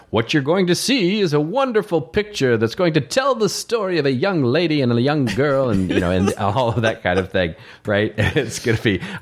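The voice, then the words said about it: Put-on mid-Atlantic accent, announcer style. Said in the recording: “I just put on my mid-Atlantic accent for you there.”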